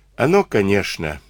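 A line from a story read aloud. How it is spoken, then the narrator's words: Sighing. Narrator (Russian): вздохнул Егорыч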